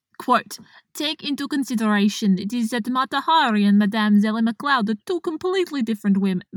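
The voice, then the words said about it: Attempted accent sounding Russian. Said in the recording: “I'm going to forgive your accent ... This is way too Russian ... This is very Russian. This is not French.”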